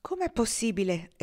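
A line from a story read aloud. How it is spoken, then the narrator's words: Woman exclaiming. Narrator (Italian): esclamò lei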